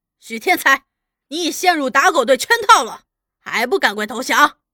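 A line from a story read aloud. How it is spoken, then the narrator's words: Loud shout. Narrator (Chinese): 有人大叫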